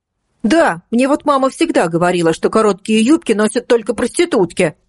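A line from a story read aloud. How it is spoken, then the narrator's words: Shout from audience. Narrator (Russian): выкрикнул кто-то из зала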